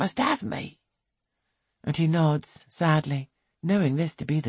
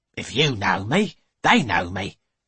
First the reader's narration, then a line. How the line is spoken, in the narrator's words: she snaps